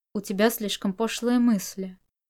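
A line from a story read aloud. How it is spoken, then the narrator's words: Cold remark. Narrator (Russian): Чуванин холодно прокомментировал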